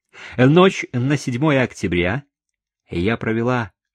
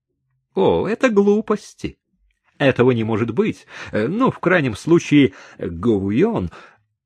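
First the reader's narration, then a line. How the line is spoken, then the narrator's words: Laughing, dismissive. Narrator (Russian): господин маркиз рассмеялся и сказал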